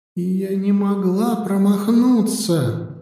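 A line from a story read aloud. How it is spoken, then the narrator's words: Whisper. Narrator (Russian): прошептала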